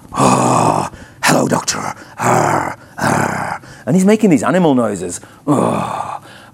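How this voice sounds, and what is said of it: Put-on Irish accent. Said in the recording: “he's got a very Irish accent, so I'll try not to do it too much because some Irish people might get offended”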